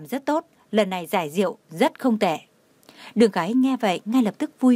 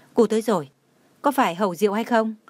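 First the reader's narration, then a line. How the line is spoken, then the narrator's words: Smiling. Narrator (Vietnamese): Trần Mạn Hồng mỉm cười nói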